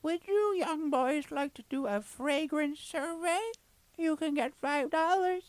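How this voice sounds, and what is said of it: Imitates an elderly lady's voice. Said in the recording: “That was the best impression. No, she wasn't that old, but it was. That's pretty accurate.”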